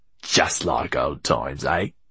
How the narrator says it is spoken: He snarled in his ear

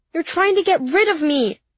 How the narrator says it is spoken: I yelled at Mommy

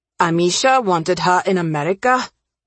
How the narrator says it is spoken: Ravi said, his voice harsher than he meant

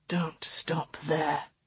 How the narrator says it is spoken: he rasped

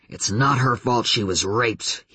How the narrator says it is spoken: he growled

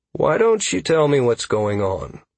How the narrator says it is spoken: I offered calmly

